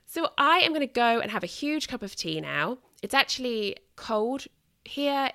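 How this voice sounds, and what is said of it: British accent. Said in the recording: “a wonderful British accent”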